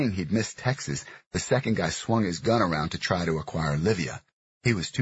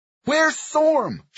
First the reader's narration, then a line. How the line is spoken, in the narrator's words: she yelled